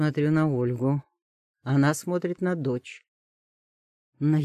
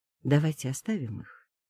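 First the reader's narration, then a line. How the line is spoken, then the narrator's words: Quiet, not to disturb. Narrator (Russian): говорит она тихо, чтобы не мешать им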